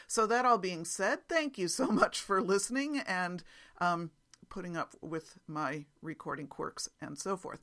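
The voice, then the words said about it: Slightly raspy voice. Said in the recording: “my throat is a little bit raspy today from allergies”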